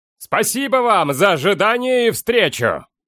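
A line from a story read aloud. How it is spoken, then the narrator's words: Shouted. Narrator (Russian): крикнул он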